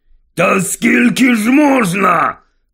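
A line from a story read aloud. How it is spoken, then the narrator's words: Barked. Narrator (Ukrainian): гаркнув Вернон Дурслі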